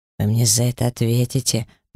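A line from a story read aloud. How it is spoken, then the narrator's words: Hoarse wheeze. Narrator (Russian): прохрипел тот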